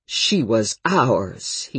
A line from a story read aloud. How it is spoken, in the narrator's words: he said indignantly